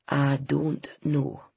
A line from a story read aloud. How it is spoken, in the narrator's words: he said slowly